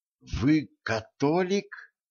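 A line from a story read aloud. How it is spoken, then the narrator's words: Forced out. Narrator (Russian): выдавила Женька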